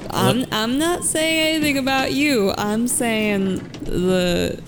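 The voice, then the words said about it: Slips into a twangy accent. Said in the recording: “What is that twang? I wasn't trying.”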